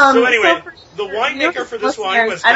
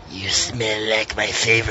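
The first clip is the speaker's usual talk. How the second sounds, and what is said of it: Creepy exaggerated character voice. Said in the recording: “I gotta do this voice in the creepiest way possible”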